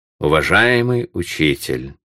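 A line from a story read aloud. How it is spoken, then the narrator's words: Imposing tone. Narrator (Russian): проговорил он внушительным тоном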